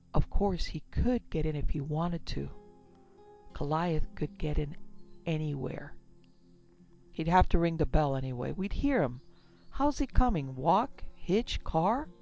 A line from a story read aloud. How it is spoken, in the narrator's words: added in a low voice